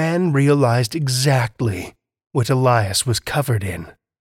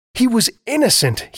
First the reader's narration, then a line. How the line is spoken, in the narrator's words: he pleaded with the townsfolk